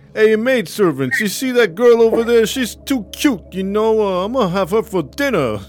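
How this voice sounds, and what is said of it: Italian New Yorker tough-guy character voice. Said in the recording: “When did she turn into Rocky? ... Italian, New Yorker ... I don't know the Transylvania accent ... Count Chocula and Rocky combo”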